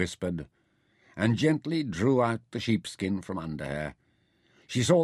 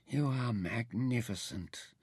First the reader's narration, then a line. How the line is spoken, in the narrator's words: whispered